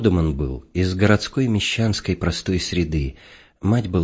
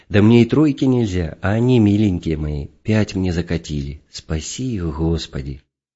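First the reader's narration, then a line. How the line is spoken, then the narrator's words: Joyful childlike gushing. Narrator (Russian): опять радостно, как дитя, заливается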